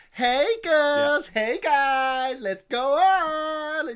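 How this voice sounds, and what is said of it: Put-on American accent. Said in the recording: “a perfectly fluid American fucking accent ... It's flawless. Absolutely flawless.”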